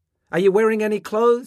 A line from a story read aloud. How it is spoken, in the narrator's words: his mother shouted